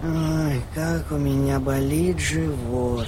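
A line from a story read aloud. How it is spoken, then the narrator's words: Mumbling in sleep. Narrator (Russian): Он только пробормотал во сне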